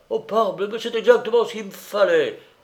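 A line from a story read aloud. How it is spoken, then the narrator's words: Enthusiastic exclamation. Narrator (French): s'écria avec enthousiasme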